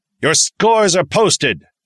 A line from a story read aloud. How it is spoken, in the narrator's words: Sergeant Decker barked